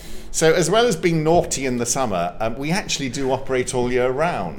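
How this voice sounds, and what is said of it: English accent. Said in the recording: “I know that sounds very weird in an English accent, doesn't it?”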